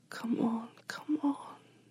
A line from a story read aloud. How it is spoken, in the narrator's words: she whispered